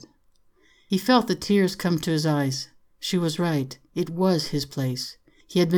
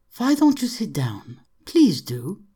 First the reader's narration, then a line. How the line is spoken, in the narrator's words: she said kindly